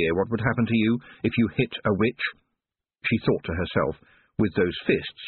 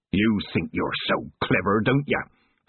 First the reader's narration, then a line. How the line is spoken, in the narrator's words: Petty snarled